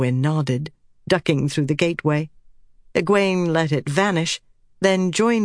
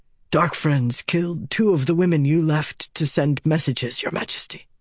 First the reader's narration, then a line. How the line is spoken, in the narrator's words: he was saying in a tired voice